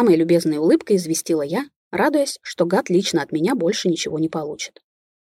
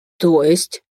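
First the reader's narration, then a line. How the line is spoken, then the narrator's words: Baffled, furious through teeth. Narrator (Russian): непонимающе процедил Баглашин, зверея на моих глазах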